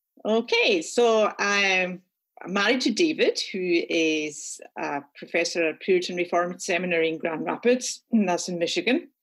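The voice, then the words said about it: Scottish accent. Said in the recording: “We are Scottish, as you'll detect from my accent.”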